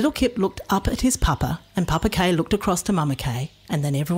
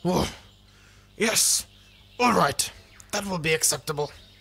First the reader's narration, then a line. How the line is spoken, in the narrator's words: said Papa Kay in a not-so-growly voice